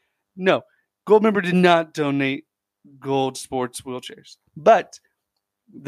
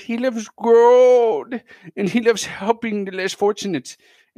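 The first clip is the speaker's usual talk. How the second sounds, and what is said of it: Goldmember impression, terrible Dutch accent. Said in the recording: “Terrible impression. Just like gold member's a terrible impression of the Holland accent.”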